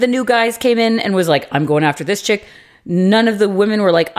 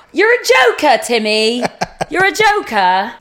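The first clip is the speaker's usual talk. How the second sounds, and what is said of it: Put-on London accent. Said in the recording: “That's my London accent.”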